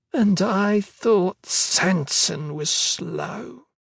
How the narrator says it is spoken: she said, hard, sneering, dying

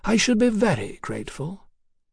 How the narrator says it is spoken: said at last, very quietly

